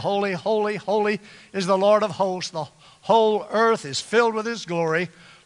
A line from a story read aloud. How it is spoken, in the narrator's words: the seraphim cried